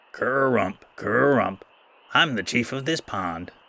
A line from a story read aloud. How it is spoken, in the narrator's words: the second frog croaked boastfully